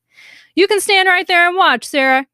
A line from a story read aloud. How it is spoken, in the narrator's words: Craig yelled